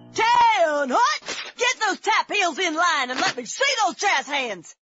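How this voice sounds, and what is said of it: Barking drill instructor voice. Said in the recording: “my impression of a drill instructor directing a musical”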